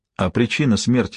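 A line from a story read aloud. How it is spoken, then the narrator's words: Plain. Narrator (Russian): спросил я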